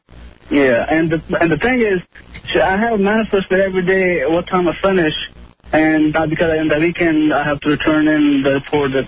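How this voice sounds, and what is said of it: Thick Italian accent. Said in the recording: “Your Italian accent is so thick.”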